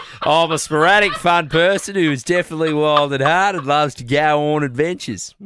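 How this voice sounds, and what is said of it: Usual voice. Nothing is said of it.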